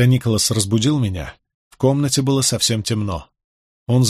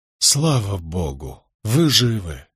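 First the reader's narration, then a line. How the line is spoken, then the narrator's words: Relieved exhale. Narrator (Russian): выдохнул я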